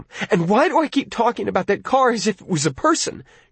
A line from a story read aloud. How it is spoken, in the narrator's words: She cried out